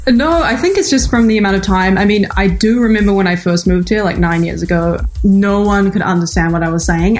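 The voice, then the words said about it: New Zealand accent mixed with Valley girl. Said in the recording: “my accent is not as thick as it used to be ... it's like a hybrid of LA gal, Valley girl, and like, you know, Auckland”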